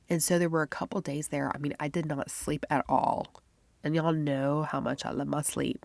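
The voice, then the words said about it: Stuffy, congested voice. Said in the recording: “I sound kind of stuffy”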